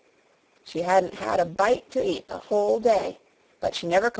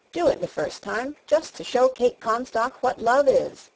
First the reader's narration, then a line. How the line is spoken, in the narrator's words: said Wesley